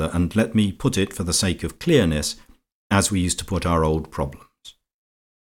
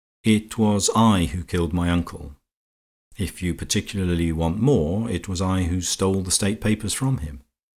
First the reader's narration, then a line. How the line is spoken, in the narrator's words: Horne Fisher said calmly